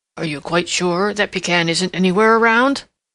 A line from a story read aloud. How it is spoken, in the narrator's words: asked Prickly Porky, and his voice still shook